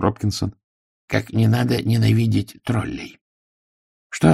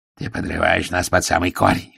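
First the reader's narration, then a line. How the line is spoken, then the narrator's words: Growl. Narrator (Russian): рычал Ардент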